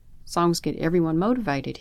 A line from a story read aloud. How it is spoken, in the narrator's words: he said